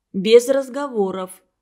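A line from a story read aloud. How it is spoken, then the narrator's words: Stern teacher. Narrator (Russian): строго сказал учитель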